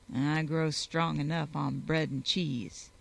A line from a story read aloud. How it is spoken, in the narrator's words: he growled